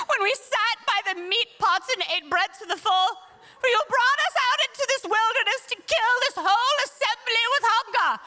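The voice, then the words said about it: Impassioned put-on British accent. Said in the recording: “Do you get a British accent a little bit too? When you speak to the Lord in impassioned tones.”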